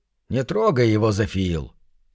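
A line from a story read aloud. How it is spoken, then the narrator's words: Forced calm voice. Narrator (Russian): Мне пришлось сделать над собой усилие, чтобы голос прозвучал спокойно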